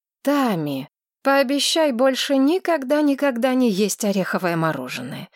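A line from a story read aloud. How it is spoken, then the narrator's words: Sigh. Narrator (Russian): вздохнула Маргарет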